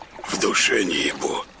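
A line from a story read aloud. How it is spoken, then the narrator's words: Smoky rasping whisper. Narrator (Russian): отозвался тот прокуренным шепотом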